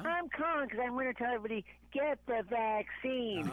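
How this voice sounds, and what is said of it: Big Bird character voice. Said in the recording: “we had Cloudy and Big Bird visit the show today... they missed my impression.”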